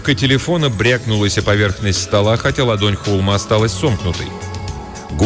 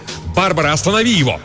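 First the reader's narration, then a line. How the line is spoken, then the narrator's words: Desperate shout. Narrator (Russian): Отчаянно устремившись к победе, Лукас выкрикнул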